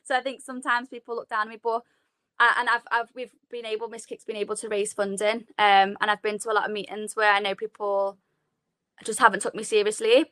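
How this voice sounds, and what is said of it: Strong Scouse accent. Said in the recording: “I've got like a really strong Scouse accent.”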